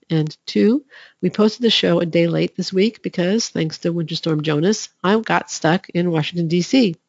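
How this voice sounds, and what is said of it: Congested, slightly off voice. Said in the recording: “as you can probably hear, I have a cold. I'm sorry if my voice is a little off”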